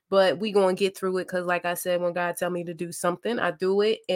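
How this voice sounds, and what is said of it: Raspy voice. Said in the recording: “my voice sounds a little bit um, raspy”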